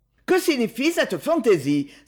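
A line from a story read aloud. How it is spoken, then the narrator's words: Exclaiming. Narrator (French): s'écria la baronne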